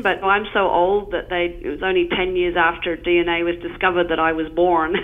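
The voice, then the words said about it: Australian accent. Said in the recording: “As you'll hear by the accent, I come by way of Australia”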